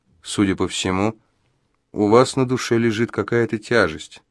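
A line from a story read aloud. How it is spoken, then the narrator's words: Soft ingratiating voice. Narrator (Russian): вкрадчиво и негромко сказал Джо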